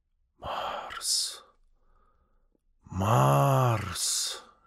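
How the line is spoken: Giant's whisper. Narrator (Russian): шептал исполин в тишине ночи

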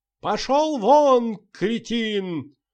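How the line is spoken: Shrieking. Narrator (Russian): визжала в ответ Волочковская

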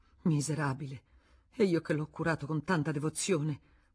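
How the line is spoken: Bursting into sobs. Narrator (Italian): Era scoppiata in singhiozzi

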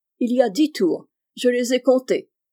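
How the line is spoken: Exclaimed. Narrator (French): s'écria M

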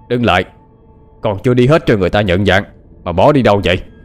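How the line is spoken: Harsh shout. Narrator (Vietnamese): tiếng quát tháo của tên mặt ngựa

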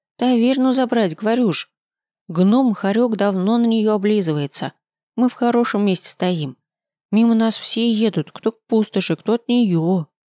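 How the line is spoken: Gloomy girl. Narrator (Russian): мрачно сообщила девочка

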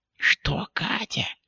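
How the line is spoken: Whisper. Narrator (Russian): прошептала та

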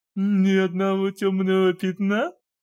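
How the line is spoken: Mocking question. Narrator (Russian): насмешливо полюбопытствовал Аркадий

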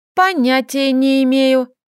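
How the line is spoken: Mocking childish voice. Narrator (Russian): детским голоском передразнила я

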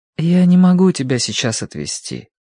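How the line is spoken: Gentle reply. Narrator (Russian): ответил Киврин ласково

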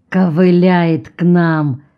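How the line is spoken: Through gritted teeth. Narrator (Russian): цедит сквозь зубы Армоль

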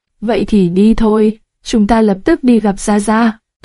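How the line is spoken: Pleased, smiling. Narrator (Vietnamese): Được Lữ Thiếu Khanh đồng ý, Tương Tí Tiên mỉm cười

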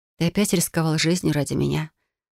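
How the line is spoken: Quiet. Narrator (Russian): Тихо произнесла я

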